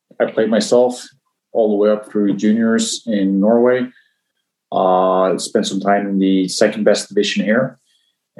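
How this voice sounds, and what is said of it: Spot-on American accent. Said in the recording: “his American accent is spot on”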